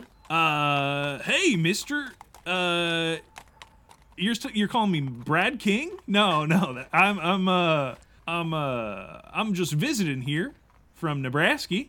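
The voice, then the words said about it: Weird put-on Nebraska accent. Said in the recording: “where did you get that weird accent that you're speaking with? It's not your typical... it's my accent. It's from Nebraska.”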